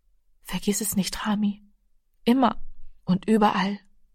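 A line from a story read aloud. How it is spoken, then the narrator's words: Mother speaking softly. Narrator (German): Die Mutter sagte leise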